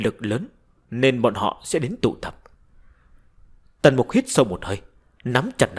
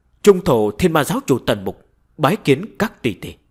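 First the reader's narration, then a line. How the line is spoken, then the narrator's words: Raised voice. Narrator (Vietnamese): Tần Mục cao giọng nói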